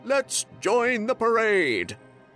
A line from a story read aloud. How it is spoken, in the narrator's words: he shouted